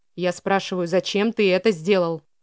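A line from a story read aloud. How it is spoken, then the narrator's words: Through gritted teeth. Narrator (Russian): процедил Митчелл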